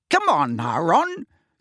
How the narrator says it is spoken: said Angelina crossly

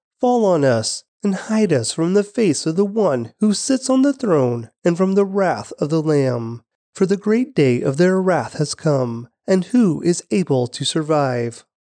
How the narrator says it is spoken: they cried to the mountains and the rocks

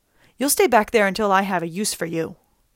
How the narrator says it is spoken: snapped

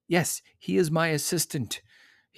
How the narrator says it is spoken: he sputtered

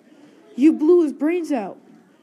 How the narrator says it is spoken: she screamed

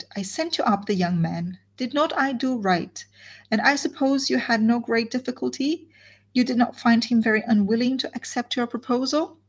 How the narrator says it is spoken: she cried

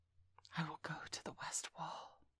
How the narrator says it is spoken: Kaa whispered

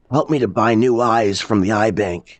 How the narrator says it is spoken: he wheezed

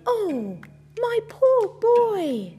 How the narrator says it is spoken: cried the woman

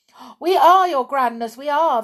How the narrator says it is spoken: they cried

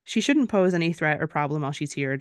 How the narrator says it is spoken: Dorian said as calmly as he could

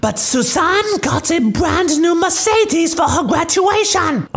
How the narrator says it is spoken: The spoiled brat, now whining, says

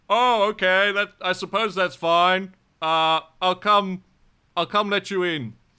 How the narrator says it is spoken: the big booming voice behind the door says

